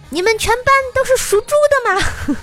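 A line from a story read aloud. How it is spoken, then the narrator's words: Shouting at us. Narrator (Chinese): 冲着九五年的我们大喊道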